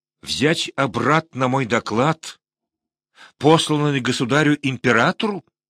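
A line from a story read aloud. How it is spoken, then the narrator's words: Furious exclamation. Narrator (Russian): яростно воскликнул он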